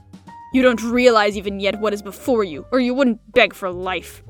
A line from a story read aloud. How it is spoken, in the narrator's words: snarled Blackie in disgust